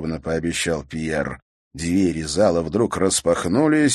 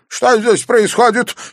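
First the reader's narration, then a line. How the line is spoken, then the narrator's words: Angry shout. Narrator (Russian): сердито крикнул он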